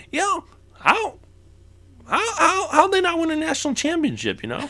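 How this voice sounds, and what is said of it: Imitates another person's voice. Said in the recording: “It's not a great impersonation ... I don't do a good Bill Simmons.”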